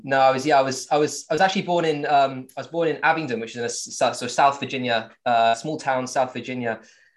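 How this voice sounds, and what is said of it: Southern English accent, slight American twang. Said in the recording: “I kept the English accent somehow ... we've got a little American twang on them, but mostly it's a Southern English accent”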